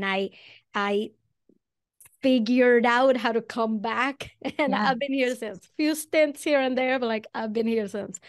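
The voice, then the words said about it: Venezuelan accent in English. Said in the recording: “I'm originally from Venezuela. That's where the accent comes from.”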